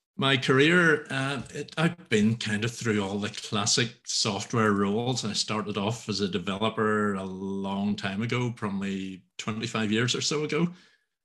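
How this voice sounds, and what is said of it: Strong rural Northern Irish accent. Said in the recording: “accent, I'm from Northern Ireland, quite a rural part of Northern Ireland, which makes the accent even stronger than it normally would be”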